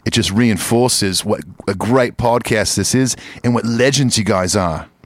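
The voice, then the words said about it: Put-on Australian accent. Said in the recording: “Let me do that in an Australian accent.”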